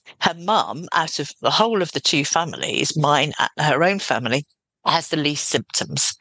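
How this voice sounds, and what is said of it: Voice with a cold. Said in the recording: “I have a cold”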